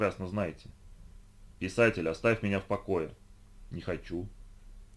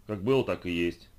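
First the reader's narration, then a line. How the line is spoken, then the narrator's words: Grumbling. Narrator (Russian): пробурчал тот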